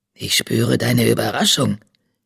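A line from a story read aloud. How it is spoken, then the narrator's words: Creature's croak. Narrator (German): krächzte das blinde Wesen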